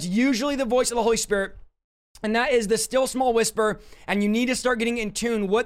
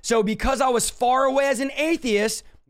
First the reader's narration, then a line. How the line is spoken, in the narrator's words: God yelled at me a loud voice that night audibly because I was distant